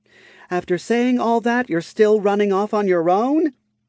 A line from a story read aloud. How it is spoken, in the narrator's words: Lifra let out a light, carefree laugh